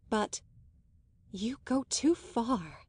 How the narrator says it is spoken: she simply breathed

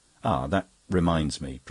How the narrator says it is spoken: Priscilla exclaimed, uttering her big profound laugh

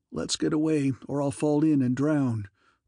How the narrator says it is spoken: groans Albert

